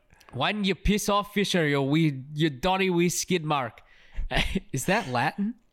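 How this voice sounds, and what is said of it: Put-on Scottish accent, not very good. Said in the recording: “I'm not going to do the accent ... Sorry to our Scottish listeners ... You gotta teach me how to do it better”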